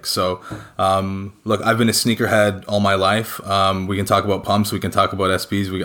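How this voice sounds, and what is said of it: Canadian English accent. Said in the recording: “As you can tell by my accent, I'm not from the UK, I'm not from Europe, I'm actually from Canada originally.”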